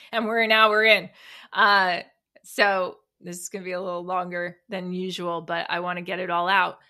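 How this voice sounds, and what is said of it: Out of breath, breathless speech. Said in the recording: “I'm running out of breath here.”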